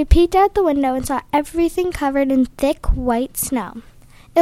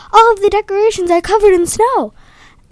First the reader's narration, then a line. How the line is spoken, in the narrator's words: her dad shout